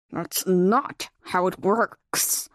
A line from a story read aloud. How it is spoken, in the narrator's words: he growled at her obvious ignorance